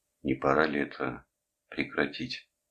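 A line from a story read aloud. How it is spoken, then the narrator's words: Muffled, hollow. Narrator (Russian): глухо произнес он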